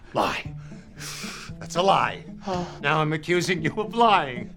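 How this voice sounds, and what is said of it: Yelling. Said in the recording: “Now I'm yelling. Why am I yelling?”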